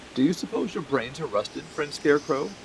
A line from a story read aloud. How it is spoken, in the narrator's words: asked in a weak voice, for his jaws would scarcely move